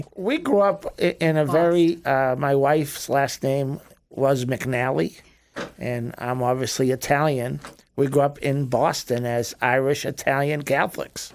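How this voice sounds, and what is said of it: Regional American accent, not Floridian. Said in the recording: “you guys aren't originally from Florida. That's given away by your accent.”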